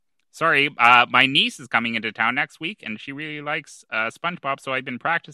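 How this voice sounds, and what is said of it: Usual voice. Nothing is said of it.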